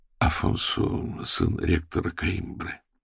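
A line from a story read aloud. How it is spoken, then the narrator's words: Quiet, into ear. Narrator (Russian): тихонько на ухо, брату сказал Аверин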